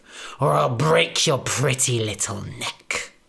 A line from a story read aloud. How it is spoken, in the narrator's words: spat the big bad wolf